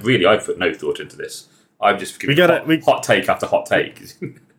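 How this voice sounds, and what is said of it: Fancy English accent. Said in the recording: “I have a you know a fancy English accent ... we got a fancy Brit”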